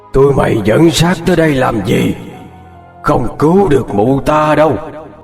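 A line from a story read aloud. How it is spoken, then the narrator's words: Roaring. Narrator (Vietnamese): miệng mở toang quát tới mang tai, gầm lên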